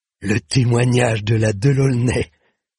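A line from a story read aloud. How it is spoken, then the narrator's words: Sneering. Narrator (French): ricana-t-il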